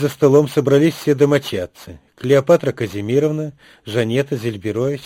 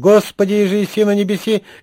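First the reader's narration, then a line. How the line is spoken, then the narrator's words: High-pitched shout. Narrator (Russian): закричал тонким голосом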